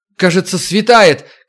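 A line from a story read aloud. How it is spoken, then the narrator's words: Shout. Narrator (Russian): крикнула Макс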